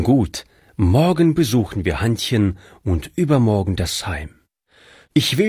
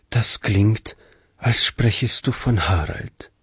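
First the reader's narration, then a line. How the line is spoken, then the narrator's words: Soft. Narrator (German): meinte Frau Jensen leise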